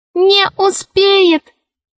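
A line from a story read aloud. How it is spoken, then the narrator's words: Squeaky voice. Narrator (Russian): пропищал мяч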